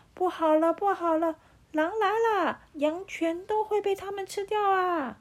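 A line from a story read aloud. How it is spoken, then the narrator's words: Child's alarmed shout. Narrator (Chinese): 放羊的孩子正在喊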